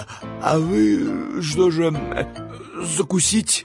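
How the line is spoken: Forced out while chewing. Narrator (Russian): Прожевав кусок икры, Степа выдавил из себя слова

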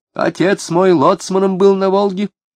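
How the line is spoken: Sharp shout. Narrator (Russian): крикнула, резкий крик этот

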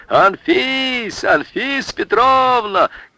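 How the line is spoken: Group yelling. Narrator (Russian): Все заорали

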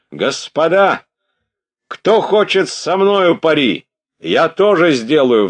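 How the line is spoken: Sudden shout. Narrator (Russian): вдруг крикнул он

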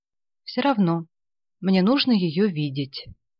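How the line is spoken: Calm. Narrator (Russian): спокойно сказал Ганин

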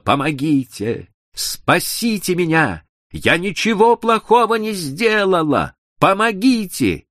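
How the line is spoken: Screaming. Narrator (Russian): она закричала

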